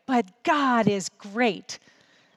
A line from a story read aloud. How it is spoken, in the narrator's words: David shouted up at him